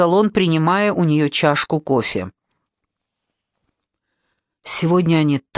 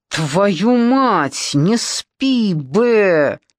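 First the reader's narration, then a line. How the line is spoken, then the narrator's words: Exhausted swearing. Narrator (Russian): так устал, что мог выдавить только самые стандартные ругательства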